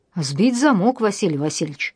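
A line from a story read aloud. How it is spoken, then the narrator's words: Brisk cheerful report. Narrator (Russian): бодро рапортовал тот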